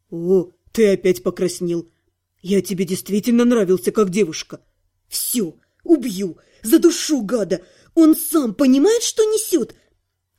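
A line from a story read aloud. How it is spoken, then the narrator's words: Angry hiss. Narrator (Russian): злобно зашипела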